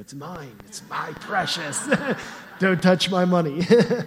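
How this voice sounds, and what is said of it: Gollum voice impression. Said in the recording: “I was tempted to do a Gollum voice here.”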